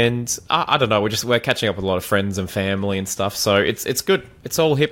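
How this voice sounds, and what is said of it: Usual voice. Nothing is said of it.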